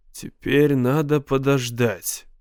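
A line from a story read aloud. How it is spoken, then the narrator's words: Calm reasoning. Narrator (Russian): Мэн старался рассуждать спокойно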